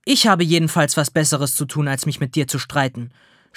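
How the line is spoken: Snapping back. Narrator (German): schnauzt die Verkäuferin zurück

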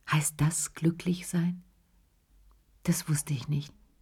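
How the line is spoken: Very quiet. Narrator (German): sagte er ganz leise

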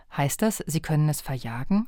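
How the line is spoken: Plain. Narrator (German): fragte Tom

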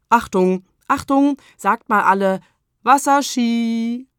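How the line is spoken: Calling out. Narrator (German): Freddy Polunder rief

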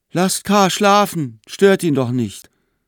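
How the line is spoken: Sleepy call from afar. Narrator (German): Noch halb im Schlaf rief aus einer Ecke Frieda

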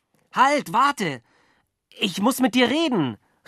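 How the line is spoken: Calling out. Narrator (German): rief ich

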